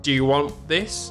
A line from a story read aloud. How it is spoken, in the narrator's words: I would shout over to Chuck and say